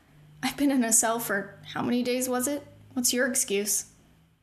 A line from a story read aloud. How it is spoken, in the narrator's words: The soldier chuckled